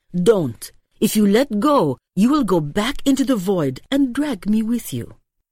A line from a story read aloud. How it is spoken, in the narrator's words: Nicholas said sharply